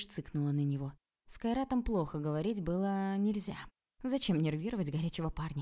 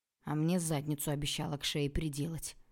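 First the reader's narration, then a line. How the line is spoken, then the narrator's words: Grumbled. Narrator (Russian): пробурчал Илья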